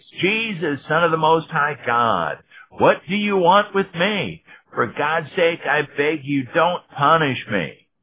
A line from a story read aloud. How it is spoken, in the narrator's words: screamed in a loud voice